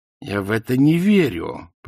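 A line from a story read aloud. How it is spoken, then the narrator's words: Growl. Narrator (Russian): прорычала Канина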